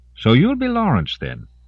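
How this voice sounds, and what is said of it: Thick accent. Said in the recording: “Her accent was thick, but easy enough for him to understand.”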